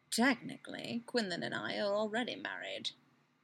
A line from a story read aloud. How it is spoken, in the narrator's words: Obi-Wan murmurs